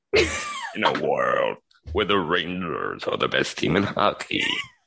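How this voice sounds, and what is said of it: Raspy movie-trailer announcer voice. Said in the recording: “sounds like an energy drink commercial ... voiceovers for like movie trailers ... Sound like you smoke 70 packs of cigarettes a day.”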